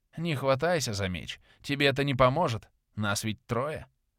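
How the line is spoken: Grumbled. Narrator (Russian): буркнул Филин

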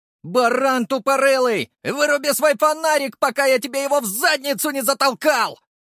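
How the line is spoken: Yelling in reply. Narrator (Russian): Заорал в ответ Леший

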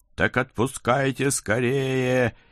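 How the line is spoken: Hysterical hungry howl. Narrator (Russian): истерически взвыла какая-то особенно голодная чертовка

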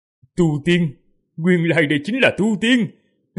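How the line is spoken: Loud laughing speech. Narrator (Vietnamese): Hắn cười to rồi nói

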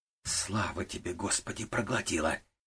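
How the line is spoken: Silent relieved thought. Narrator (Russian): мысленно выдохнула Вера Самуиловна

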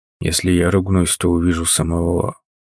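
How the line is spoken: Quiet. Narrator (Russian): Тот тихо произнес

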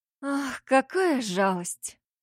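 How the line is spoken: Languid sigh. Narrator (Russian): томно вздохнула Ангелина

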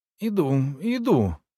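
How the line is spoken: Strained, forced out. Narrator (Russian): выдавила

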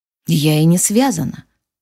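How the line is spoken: Tired smiling voice. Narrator (Russian): устало улыбнулась

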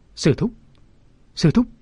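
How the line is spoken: Trembling stammer. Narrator (Vietnamese): Mụ ta run rẩy ... lắp bắp

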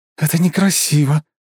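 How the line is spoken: Hissing. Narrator (Russian): зашипела

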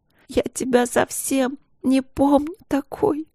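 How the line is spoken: Crying, louder sobbing. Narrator (Russian): плакала Каролина ... начинала рыдать еще громче

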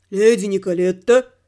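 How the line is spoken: Menacing bass call. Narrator (Russian): То ли позвал, то ли спросил грозным басом

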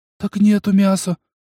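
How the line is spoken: Frightened woman. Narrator (Russian): испуганно захлопала коровьими глазами глупая баба

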